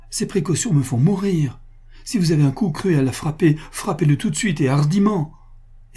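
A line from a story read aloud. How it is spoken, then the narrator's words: Exclaiming. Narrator (French): s'écria Pascal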